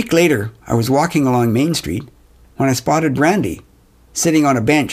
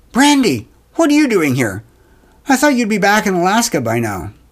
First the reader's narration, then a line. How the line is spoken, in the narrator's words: Surprised, couldn't help blurting out